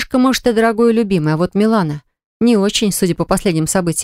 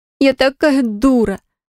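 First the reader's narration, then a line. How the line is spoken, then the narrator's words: Groaning. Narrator (Russian): застонала Милана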